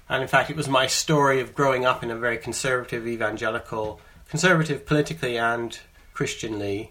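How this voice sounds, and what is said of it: Canadian accent, long UK residence. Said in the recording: “you can hear my accent. I'm a Canadian who, when I was 19, I moved to the UK, to England. And I've been living in England now for 25 years.”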